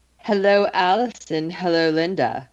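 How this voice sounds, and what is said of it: Seductive voice. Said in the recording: “do that seductive voice”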